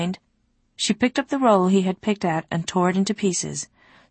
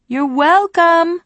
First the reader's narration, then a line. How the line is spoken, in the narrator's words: she shouted after the retreating bird